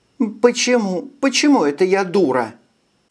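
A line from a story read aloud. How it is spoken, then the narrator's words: Holding back sobs. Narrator (Russian): сдерживая рыдание, спросила Эрника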